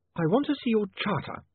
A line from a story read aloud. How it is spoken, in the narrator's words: Saccharissa snapped